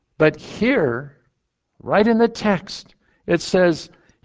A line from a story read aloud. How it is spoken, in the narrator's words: he cried out again with a loud voice